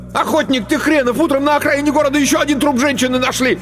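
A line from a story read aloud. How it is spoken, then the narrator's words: Angry yelling. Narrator (Russian): Мишка … заорал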